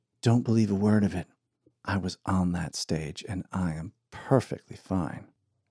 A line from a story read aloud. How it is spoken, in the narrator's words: A sweet whisper in Archie's ear said